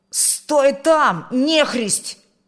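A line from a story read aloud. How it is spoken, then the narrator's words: Shouted. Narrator (Russian): крикнул он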